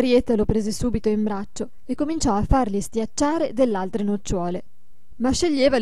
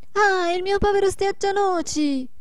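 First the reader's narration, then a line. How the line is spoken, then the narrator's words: Shouted. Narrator (Italian): gridò la Marietta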